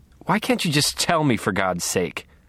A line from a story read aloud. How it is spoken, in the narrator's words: snapped